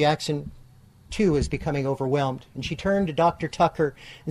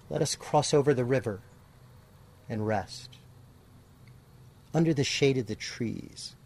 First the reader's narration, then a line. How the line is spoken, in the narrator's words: Jackson whispered in a light voice